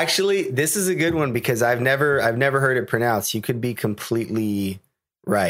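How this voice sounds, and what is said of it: Usual voice. Nothing is said of it.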